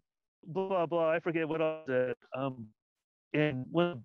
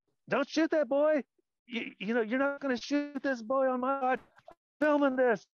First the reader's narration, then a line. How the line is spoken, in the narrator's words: I yell out the window